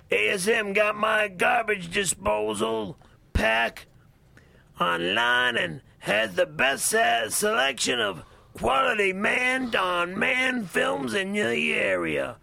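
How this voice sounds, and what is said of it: Imitates another person's voice. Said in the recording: “Do Wolfman Jack. ... Just do the voice. ... Go, Wolfman.”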